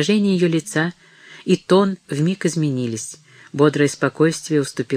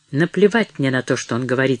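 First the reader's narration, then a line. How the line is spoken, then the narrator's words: Rude, blunt. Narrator (Russian): сказал он грубо, неожиданно для самого себя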